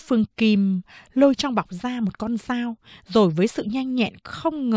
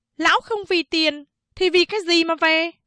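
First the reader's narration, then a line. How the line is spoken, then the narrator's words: Angry question. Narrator (Vietnamese): Mụ Kim giận dữ hỏi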